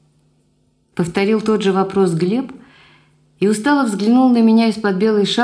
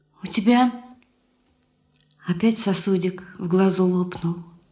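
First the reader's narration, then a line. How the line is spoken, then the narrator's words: Quiet. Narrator (Russian): тихо сказала я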